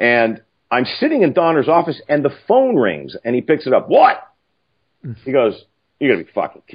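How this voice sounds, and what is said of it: Usual voice. Nothing is said of it.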